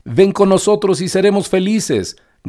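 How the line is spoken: Hundred voices shouting together. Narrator (Spanish): gritaron todas juntas 1 centenar de voces

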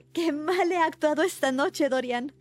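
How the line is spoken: Exclamation. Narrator (Spanish): exclamó

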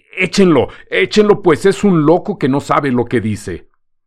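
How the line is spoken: Flustered shout. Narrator (Spanish): Perdido todo su aplomo, gritó el gitano

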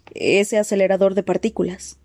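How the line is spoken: Low voice. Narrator (Spanish): dijo Landon en voz baja

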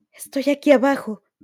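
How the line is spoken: Failed shout, came out whispered. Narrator (Spanish): intentó gritar, pero la voz le salió en un susurro

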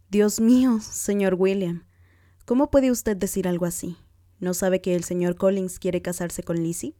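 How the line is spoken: Vehement exclamation. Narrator (Spanish): Lidia, siempre indiscreta y a menudo maleducada, exclamó con vehemencia

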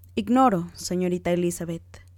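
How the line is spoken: Plain. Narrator (Spanish): dijo

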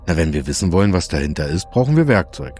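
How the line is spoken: Plain. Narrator (German): sagte Jens

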